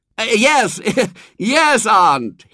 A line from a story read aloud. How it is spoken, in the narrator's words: he screamed back above the noise of the yapping